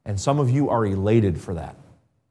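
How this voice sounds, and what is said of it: Sarcastic delivery. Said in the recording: “That was a joke. That was sarcasm.”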